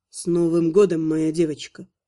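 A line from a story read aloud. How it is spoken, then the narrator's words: Whispering in ear. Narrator (Russian): прошептал Анхайлик ей на ухо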